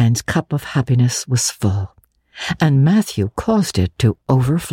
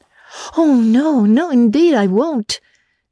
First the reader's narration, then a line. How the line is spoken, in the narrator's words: said Anne eagerly